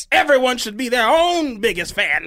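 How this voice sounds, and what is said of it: Preacher voice. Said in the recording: “I'm about to do it in this voice. ... The preacher voice is hard.”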